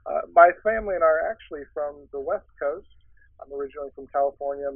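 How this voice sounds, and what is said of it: American accent, not British. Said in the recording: “you can probably tell from my accent that I'm not originally from London”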